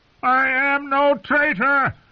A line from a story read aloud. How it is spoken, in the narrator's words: screeched the prisoner